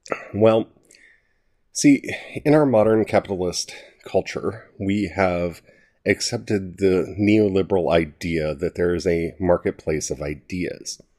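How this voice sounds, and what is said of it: Congested voice from a cold. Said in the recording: “I do apologize if you can hear any weirdness in my voice. I have a cold.”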